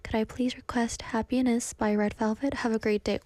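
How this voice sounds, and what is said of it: Sad, almost tearful voice. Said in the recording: “Why does my voice sound like I'm sad suddenly? It sounded like I was like crying.”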